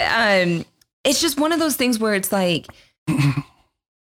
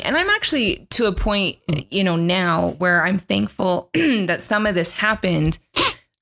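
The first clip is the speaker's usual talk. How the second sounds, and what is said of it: Voice cracking, pitch breaking. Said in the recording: “my voice is changing. Apparently I hit puberty.”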